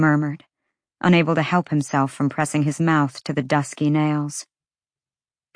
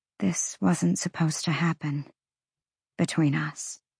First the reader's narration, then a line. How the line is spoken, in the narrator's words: she whispered